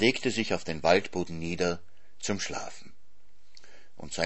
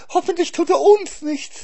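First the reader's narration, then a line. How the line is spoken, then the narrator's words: Whining hare. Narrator (German): jammerte der Hase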